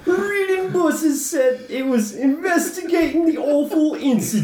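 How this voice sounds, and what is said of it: Usual voice. Nothing is said of it.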